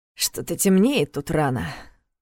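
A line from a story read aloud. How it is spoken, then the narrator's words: Grumbling. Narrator (Russian): проворчал он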